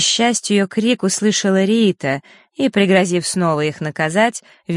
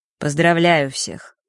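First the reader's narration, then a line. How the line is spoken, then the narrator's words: Dry voice. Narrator (Russian): Его голос прозвучал сухо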